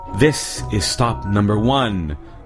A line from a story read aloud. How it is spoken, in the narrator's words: the old Grinchy Claus hissed